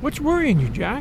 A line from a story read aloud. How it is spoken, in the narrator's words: He laughed again